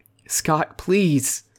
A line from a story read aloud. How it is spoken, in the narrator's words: Travis pleaded with the bearded man